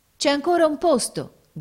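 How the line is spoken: Sailors shouting. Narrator (Italian): gridarono i marinai

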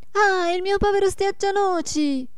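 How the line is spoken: Shout. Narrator (Italian): gridò la Marietta

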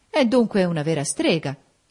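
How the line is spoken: Exclaimed. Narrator (Italian): esclamò Federico Lynn

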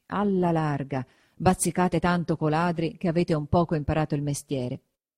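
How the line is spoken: Muttering through teeth. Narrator (Italian): mormorava tra denti

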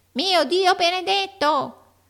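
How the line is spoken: Odd comical tone. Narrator (Italian): in un modo così curioso che Amy rise invece

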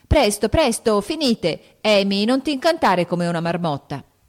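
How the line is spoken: Shouting. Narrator (Italian): gridò Joe mentre che il tè, andatole attraverso, quasi la soffocava

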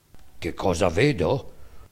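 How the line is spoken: Donkey's low voice. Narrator (Italian): rispose a bassa voce il ciuco

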